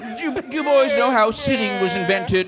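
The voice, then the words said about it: Imitates another person's voice. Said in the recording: “Good impression. Lorne Michaels, like he's here.”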